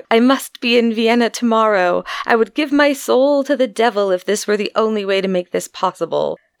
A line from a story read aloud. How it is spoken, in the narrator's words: In his despair, he cried out